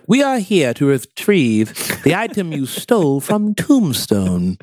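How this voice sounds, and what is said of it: Super proper accent. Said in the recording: “I heard like this super proper accent.”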